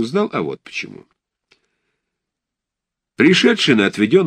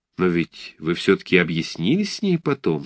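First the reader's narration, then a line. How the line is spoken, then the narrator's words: Plain. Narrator (Russian): спросила пианистка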